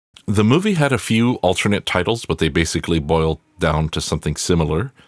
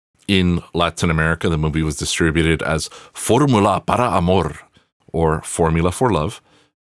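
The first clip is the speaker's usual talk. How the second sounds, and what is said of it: Latin American newscaster voice. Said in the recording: “that's my Spanish newscaster voice, or my Latin American newscaster voice”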